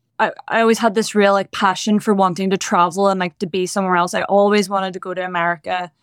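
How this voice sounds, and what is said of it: Northern Irish accent. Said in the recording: “If people can't tell by the accent ... I grew up in the north of Ireland”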